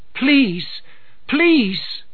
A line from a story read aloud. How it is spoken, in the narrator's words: they cried to King Arthur